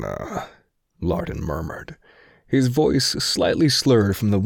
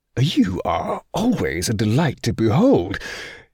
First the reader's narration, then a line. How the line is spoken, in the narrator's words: he cried